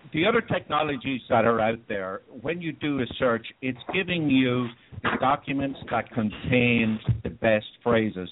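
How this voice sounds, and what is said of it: Irish accent. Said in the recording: “I know my accent is hard to understand. ... Ireland”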